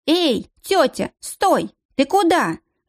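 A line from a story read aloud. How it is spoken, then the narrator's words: Girl shouting belatedly after. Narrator (Russian): Запоздала, крикнула ей в спину девчонка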